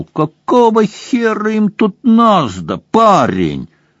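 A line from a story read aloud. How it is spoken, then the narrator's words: Laughing. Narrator (Russian): Сэм рассмеялся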